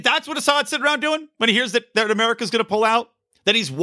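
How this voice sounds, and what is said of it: Usual voice. Nothing is said of it.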